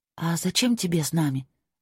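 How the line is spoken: Whispered question. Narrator (Russian): спросила я его шепотом

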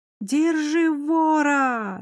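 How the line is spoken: Wild yelling. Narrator (Russian): заорала я диким голосом

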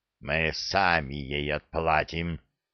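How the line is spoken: Angry growl. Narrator (Russian): зло прорычал Храд

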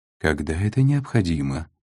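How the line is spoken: Calm. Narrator (Russian): спокойно ответил Сантьяго

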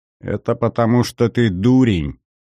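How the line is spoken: Snide remark. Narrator (Russian): ехидно заметил второй, до тех пор молчавший свидетель

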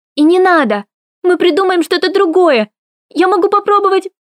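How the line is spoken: Woman shouting through tears. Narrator (Russian): Морган закричала сквозь слезы, душащие нас всех

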